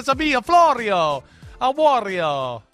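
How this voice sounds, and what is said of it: Mock Italian accent. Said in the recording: “the mocking of the Italian culture”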